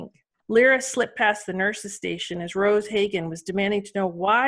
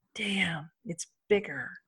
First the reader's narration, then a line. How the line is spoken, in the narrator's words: Lyra whispered, frozen to the spot